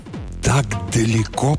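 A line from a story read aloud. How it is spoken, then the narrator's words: Astonished whisper. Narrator (Russian): прошептал пораженный Зискин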